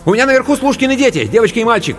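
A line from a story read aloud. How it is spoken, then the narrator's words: Rapid chatter. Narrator (Russian): протараторила Анка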